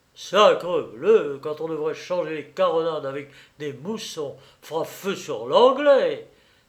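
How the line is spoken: Exclaiming. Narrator (French): s'écria Maître Durand en montant rapidement sur le pont

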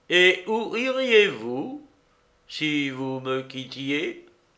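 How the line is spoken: Slow, deliberately wounding. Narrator (French): il dit lentement

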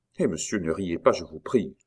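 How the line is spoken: Curt retort. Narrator (French): répliqua sèchement François

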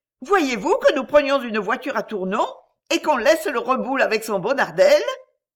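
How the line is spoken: Shouting. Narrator (French): Je criais

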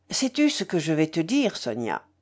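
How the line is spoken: Earnest, heartfelt tone. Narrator (French): reprit-il d'un ton pénétré

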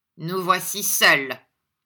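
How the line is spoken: Dry, curt. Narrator (French): répondit Ralph sèchement

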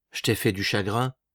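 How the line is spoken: Murmured. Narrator (French): murmura-t-il

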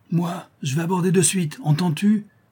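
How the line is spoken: Exclaimed. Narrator (French): s'écria Ducasse

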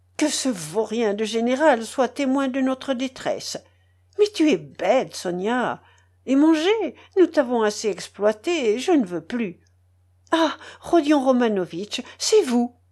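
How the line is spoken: Surprised exclamation. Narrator (French): s'écria-t-elle en apercevant Raskolnikov

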